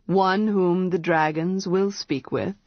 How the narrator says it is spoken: he said

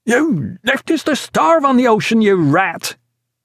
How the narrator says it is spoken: roared the first headsman

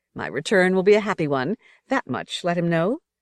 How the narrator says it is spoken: said young Semele, breaking for a moment into her joyful laugh

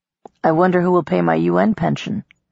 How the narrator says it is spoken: Namir muttered

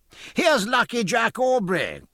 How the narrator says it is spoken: cried Bennett of the Aurora

